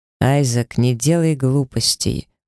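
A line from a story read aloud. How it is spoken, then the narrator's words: Cold. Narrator (Russian): холодно произнес он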